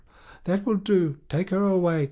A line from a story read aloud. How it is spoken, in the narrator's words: cried Charles, who was sobbing in the alcove